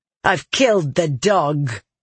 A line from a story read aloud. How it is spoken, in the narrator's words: Elsin sneered